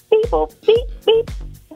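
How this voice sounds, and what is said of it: Alien character voice. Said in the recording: “your best impression of an alien”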